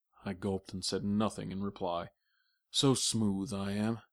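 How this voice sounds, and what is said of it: Usual voice. Nothing is said of it.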